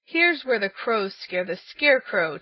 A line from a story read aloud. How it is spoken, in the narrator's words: chuckled the naughty King Crow